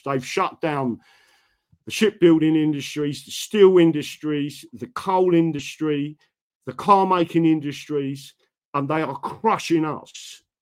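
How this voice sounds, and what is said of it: Southern English accent. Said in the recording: “I may speak with a southern accent”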